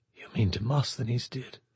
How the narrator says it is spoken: she whispered

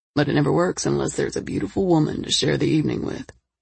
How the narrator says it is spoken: he said smoothly

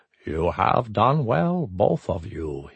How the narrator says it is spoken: he said quietly

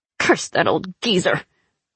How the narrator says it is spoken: Zoya growled

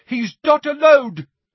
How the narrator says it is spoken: shouted a voice from above them

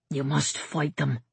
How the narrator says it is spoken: Brother Tide whispered fiercely

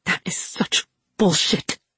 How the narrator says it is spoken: she snarled

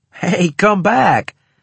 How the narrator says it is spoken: I called, half laughing

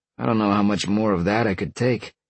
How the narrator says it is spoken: Sean grumbled

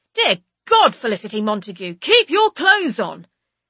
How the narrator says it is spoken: Monty does an exasperatingly dramatic throwing of his hands over his eyes and exclaims

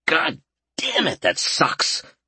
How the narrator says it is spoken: Albert snapped

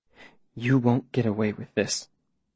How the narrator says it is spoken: the woman says, her voice almost steady

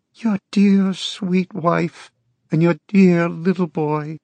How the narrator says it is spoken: she cried in her high, mewling voice

